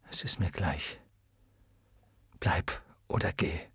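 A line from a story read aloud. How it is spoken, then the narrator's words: Murmuring. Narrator (German): murmelte er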